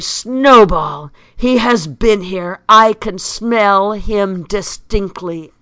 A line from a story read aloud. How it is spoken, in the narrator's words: exclaim in a terrible voice